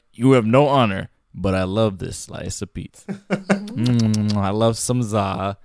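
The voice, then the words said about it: Impression of a sci-fi character's voice. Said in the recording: “a good Worf impression”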